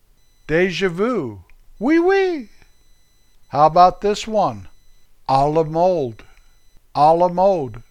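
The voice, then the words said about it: American accent pronouncing French words. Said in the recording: “Darn American accent.”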